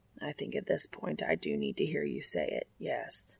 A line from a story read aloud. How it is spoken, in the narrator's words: Castiel replies quietly